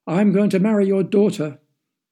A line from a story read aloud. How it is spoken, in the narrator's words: the prince was shouting